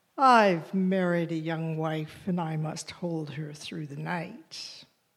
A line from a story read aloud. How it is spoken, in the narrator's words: The third invited sighed